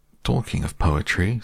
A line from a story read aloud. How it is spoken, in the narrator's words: said Pooh quickly